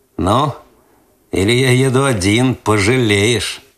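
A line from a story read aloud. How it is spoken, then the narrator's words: Slightly mocking. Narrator (Russian): Последнее слово он сказал чуть насмешливо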